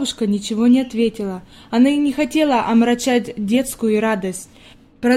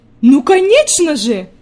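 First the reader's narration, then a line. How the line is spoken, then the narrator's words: Grandmother exclaiming. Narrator (Russian): воскликнула бабушка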